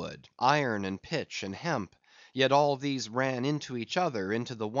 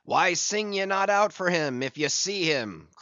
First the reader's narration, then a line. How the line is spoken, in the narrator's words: cried Ahab